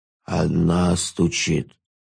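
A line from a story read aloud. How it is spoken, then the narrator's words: Sleepy ghoul. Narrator (Russian): сонно сказал упырь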